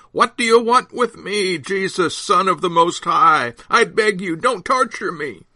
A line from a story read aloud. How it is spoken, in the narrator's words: he cried out and fell at his feet, shouting at the top of his lungs